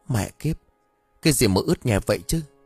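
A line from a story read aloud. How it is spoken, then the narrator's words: Trembling, speechless stammer. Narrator (Vietnamese): hắn run rẩy miệng á khẩu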